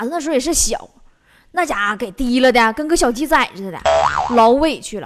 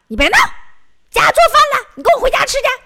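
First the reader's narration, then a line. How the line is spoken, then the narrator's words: Woman shouting while tugging. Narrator (Chinese): 女的一边拽还一边喊呢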